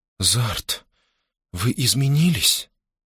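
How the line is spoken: Confused whisper. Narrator (Russian): растерянно прошептала Лианна

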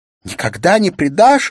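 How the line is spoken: Sobbing shout. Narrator (Russian): закричала Улла со всхлипыванием

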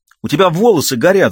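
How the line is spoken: Girl's scream. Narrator (Russian): закричала девочка

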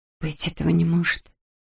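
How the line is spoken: Whispered. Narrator (Russian): прошептала она

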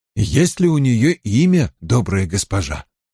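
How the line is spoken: Plain. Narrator (Russian): спросил Перин

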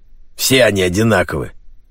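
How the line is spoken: Angry. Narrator (Russian): зло произнес Джеймс Клик

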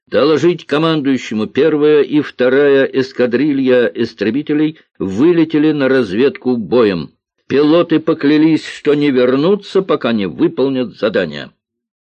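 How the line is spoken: Loud. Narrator (Russian): громко произнес

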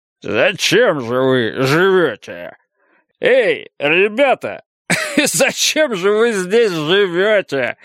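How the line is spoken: Drunken laughter. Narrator (Russian): прибавил он с пьяным хохотом

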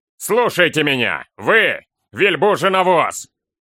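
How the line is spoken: Man shouting. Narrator (Russian): крикнул он, мужчина

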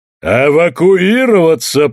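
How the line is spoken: Thundering ruler. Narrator (Russian): прогремел властитель

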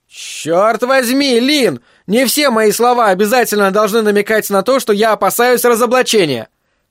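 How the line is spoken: Irritated yelling. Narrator (Russian): Айзек в раздражении заорал

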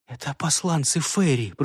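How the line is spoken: Whispering. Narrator (Russian): прошептала она

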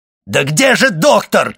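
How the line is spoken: Shout. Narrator (Russian): кричал Вильфор

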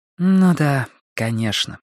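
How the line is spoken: Sigh. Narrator (Russian): вздохнула Робин

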